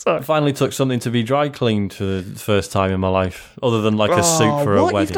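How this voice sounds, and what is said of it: Usual voice. Nothing is said of it.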